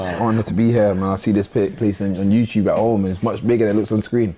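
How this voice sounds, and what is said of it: British accent. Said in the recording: “that's not a Toronto accent. is coming to us via the UK ... lose the accent ... Being British”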